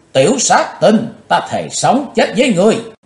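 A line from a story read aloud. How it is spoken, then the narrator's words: Furious shout through gritted teeth. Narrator (Vietnamese): quỷ nữ Mộc Liên Anh lửa giận, y nghiến răng trèo trẹo, ả hét to lên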